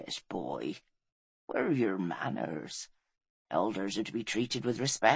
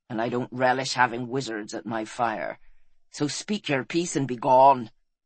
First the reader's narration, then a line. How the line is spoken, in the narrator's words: snapped Fel, still rattled